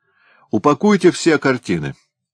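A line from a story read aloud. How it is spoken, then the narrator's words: Interrupting shout. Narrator (Russian): крикнул он, перебивая художника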